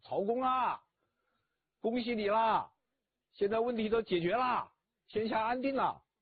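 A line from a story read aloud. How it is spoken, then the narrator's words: Spirited shout from afar. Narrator (Chinese): 吕布虽然做了俘虏，但意气风发，老远就大叫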